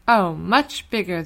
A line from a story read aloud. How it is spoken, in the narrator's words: cried